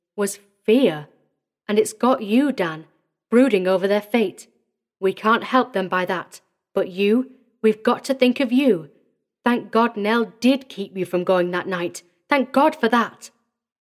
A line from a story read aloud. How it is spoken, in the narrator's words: he said, trying to speak evenly